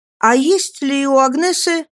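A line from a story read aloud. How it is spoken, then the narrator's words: Half-spoken thought aloud. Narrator (Russian): скорее громко подумал, чем сказал я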